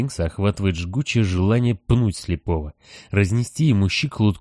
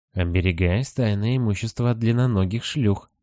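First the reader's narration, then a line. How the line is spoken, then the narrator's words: Gloomy reply. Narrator (Russian): мрачно отвечает сфинкс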